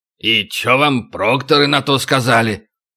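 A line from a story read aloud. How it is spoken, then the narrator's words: Unimpressed grumble. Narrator (Russian): проворчал Макото, ничуть не впечатленный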